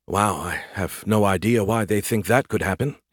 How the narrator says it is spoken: he muttered

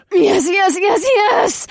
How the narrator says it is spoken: She squealed

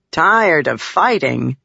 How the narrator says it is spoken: Gaz said, chuckling

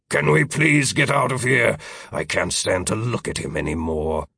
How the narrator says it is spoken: Future Philip growled

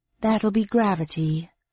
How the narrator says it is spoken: said Square with a sigh

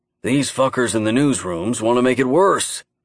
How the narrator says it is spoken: Henry grunted in reply

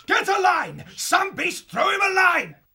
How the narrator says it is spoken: as Joseph yelled out

